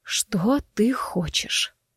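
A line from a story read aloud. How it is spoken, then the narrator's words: Hoarse rasp. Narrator (Russian): прохрипела я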